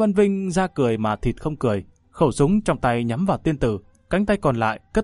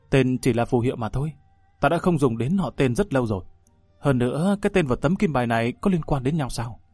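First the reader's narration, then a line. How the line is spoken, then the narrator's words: Calm after brief anger. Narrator (Vietnamese): Trong mắt tiên tử lóe lên một tia phẫn nộ, ngay sau đó lập tức bình tĩnh lại, nói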